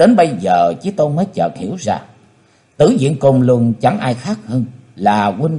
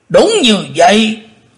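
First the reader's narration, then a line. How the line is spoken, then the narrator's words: Thunderous reply. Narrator (Vietnamese): Tử Diện Côn Luân đáp như trời gầm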